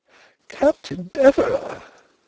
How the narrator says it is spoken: exclaimed several voices

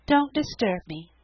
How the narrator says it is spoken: said the Story Girl dreamily

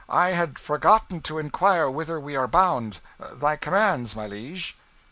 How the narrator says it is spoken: called out

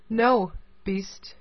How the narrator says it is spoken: she answered in a very firm tone

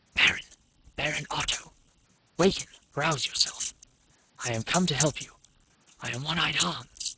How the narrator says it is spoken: a voice whispered in his ear

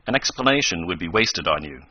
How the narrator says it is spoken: said Professor Bumper stiffly

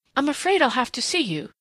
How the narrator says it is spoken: she said desperately

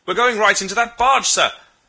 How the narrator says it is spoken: Another voice cried warningly

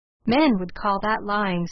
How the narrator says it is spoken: said Elnora calmly

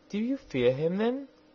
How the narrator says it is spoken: asked the princess anxiously

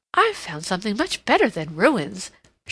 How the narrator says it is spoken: she exclaimed

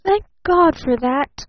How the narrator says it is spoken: gasped little Eve Edgerton

